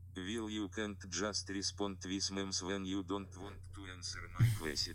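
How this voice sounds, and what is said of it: Thick Russian accent. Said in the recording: “The thick Russian accent is really hammers it home.”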